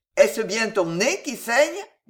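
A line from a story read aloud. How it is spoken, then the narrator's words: Plain. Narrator (French): dit Pardeillan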